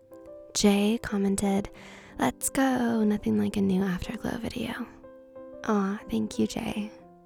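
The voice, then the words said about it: Extra raspy voice. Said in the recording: “My voice is like extra raspy right now because I just woke up.”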